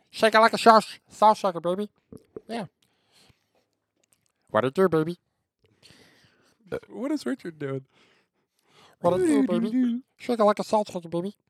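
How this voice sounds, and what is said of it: Imitates a cartoon character's voice. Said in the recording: “That's my impression of Rick.”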